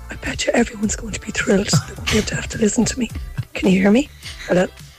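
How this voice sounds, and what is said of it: Weak, nearly lost voice. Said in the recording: “I've lost my voice.”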